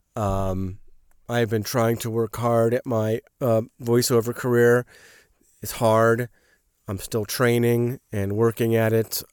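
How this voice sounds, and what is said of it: Sick-sounding voice. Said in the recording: “in my sick voice, unless you like my sick voice ... hopefully I'll be better in a couple of days”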